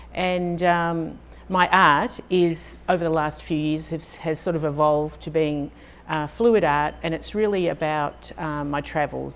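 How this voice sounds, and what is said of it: Australian accent. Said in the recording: “I sound a little different. I'm Australian.”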